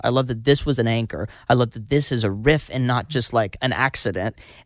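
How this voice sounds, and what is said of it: Raised, excited voice. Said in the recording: “as you can tell, I just raised my voice getting excited about it”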